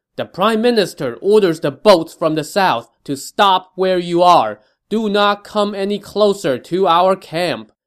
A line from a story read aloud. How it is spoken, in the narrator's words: Wen Pin yelled